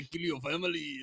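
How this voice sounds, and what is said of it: Deep scary villain voice. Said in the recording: “why is every scary thing have like a deep voice?”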